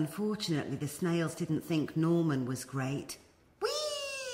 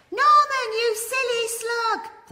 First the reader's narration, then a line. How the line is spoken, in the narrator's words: cried